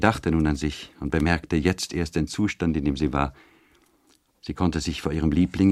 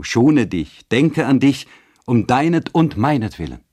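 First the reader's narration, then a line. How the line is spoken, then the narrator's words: Calling out. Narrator (German): rief hinzu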